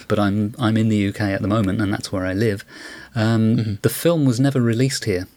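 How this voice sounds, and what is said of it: British accent. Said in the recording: “people may have guessed from my accent that I'm British”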